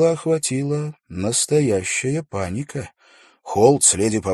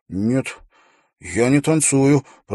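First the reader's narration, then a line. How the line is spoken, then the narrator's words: Through gritted teeth. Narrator (Russian): процедил Уилл сквозь зубы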